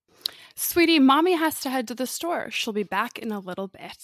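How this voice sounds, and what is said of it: Sweet, gentle voice for a child. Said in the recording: “This is an American accent, to be clear ... this is how I talk to my children. ... Sweetly. ... in a nice voice.”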